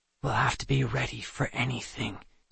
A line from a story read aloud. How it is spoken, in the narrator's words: Seth muttered quietly